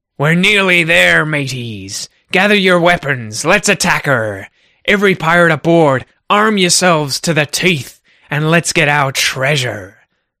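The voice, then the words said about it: Pirate character voice. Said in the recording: “Hopefully, my impersonation was okay there.”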